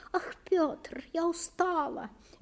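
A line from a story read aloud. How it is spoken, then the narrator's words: Thin plaintive moan. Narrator (Russian): еще тоньше простонала она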